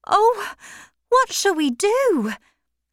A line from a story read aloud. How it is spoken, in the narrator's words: cried Maggie